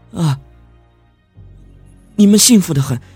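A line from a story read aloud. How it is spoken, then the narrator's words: Trembling voice. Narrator (Chinese): 我……颤声的说道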